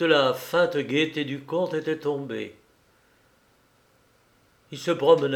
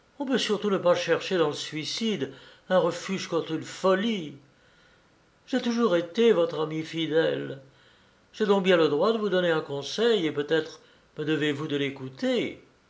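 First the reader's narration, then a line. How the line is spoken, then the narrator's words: Fervent exclamation. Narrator (French): s'écria Madame Rose avec élan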